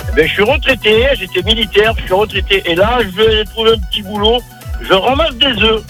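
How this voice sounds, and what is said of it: Slight regional French accent. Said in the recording (French): “t'as un petit accent”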